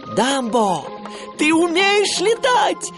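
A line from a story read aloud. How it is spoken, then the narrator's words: Joyful shout. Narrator (Russian): радостно крикнул Тимоти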